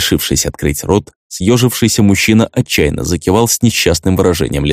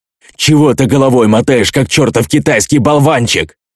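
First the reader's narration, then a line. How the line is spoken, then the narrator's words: Furious yelling, big brother. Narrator (Russian): Вне себя заорал большой брат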